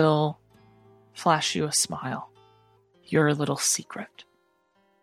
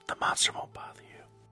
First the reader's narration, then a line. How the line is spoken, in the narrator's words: Kalina will try to pull Vanessa close in, like, to where she can whisper to her, and just go